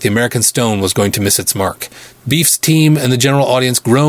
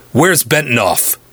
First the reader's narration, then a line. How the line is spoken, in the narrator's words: Beef growled